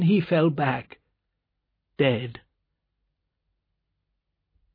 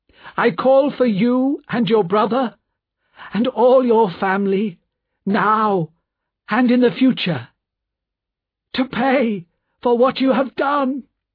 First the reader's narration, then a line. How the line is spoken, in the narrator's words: he said loudly